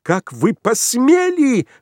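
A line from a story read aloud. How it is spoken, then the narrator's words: Indignant female exclamation. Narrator (Russian): возмущенно воскликнула она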